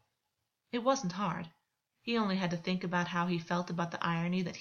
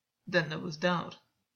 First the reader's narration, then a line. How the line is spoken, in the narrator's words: Gwyn said, stiffly